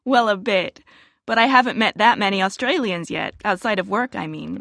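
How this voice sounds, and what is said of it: Nice American accent. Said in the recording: “you've got a really nice American accent”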